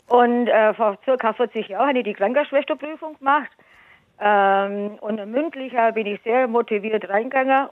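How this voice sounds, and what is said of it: Swabian German accent. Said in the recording (German): “Dialekt und Schwäbischen ... Ich bin ja waschechte Schwäbin. Ich hoffe, ihr verstandet mich.”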